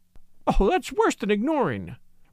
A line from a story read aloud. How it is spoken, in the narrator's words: replied Miss Linderham, with a laugh